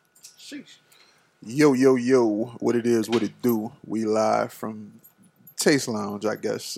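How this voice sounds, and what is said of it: Put-on radio host voice. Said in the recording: “That's your radio voice?”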